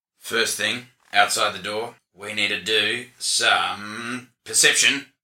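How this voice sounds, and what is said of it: Character voice. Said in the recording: “That's character voice.”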